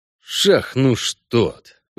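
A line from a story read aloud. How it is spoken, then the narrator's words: Cursing through teeth. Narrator (Russian): выругался Геральт сквозь зубы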